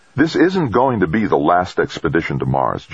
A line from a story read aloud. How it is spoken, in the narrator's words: Jamie said firmly